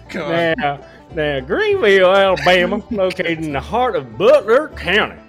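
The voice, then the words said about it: Exaggerated Southern twang. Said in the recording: “Can you add your voice, please? Can you add more twang in your voice, please?”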